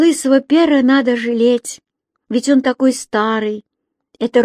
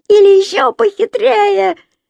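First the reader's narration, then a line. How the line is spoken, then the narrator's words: Excited exclamation, giggling. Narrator (Russian): воскликнул Лысый Пер и хихикнул, предвкушая очередную выдумку своего атамана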